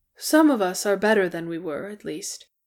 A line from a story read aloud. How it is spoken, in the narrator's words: Glowin said with a sigh